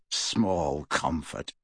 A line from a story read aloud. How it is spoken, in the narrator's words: snarled Kingsley